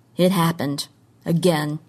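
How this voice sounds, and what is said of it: Lower, despairing voice. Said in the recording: “In a lower voice, as despairing as her own thoughts were”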